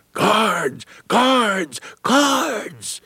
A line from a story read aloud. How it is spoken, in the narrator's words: one freedom rider yelled